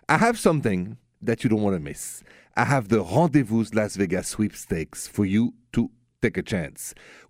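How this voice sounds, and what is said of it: French accent. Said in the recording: “The accent, by the way, French, straight from Paris.”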